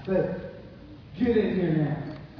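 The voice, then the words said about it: Stern commanding dad voice. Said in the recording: “You ever use your father voice? You ever use your dad voice? ... there's a difference between, "Hey, I love you, church," and "Get in here now." ... If I have more bass, that would ring out.”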